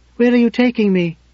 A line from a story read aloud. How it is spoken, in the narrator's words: she cried out, before she could stop herself